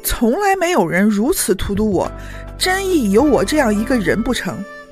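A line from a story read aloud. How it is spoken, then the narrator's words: Sighing youth. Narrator (Chinese): 一个少年，叹了一声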